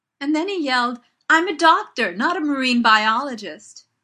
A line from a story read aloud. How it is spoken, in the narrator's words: Martha says, practically howling into her water glass